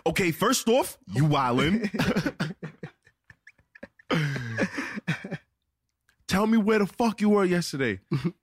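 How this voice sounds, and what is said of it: Put-on New York accent. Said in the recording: “the New York accent be cutting you ... do you get back in the New York accent?”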